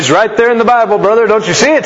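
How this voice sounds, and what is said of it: Fervent preacher voice. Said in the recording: “that's my preacher voice ... You guys didn't know I had that preacher voice”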